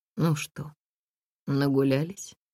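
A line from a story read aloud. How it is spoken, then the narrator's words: Calm but husky, near shouting. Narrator (Russian): Голос у Натальи, когда она говорила спокойно, все равно был хрипловатый, как будто готовый в любую минуту сорваться на крик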